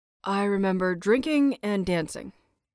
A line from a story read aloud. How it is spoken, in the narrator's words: Yuri replied